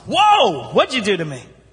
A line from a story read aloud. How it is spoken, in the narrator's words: the lady yells